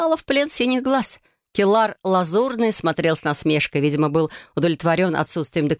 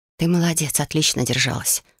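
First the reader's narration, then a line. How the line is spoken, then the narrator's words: Whisper. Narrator (Russian): шепнула подруга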